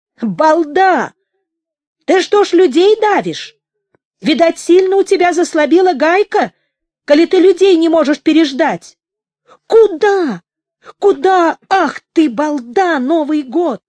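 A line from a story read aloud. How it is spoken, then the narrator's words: Shouting. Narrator (Russian): кричала она водителю грузовика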